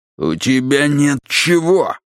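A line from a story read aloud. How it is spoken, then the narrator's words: Barked. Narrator (Russian): рявкнул он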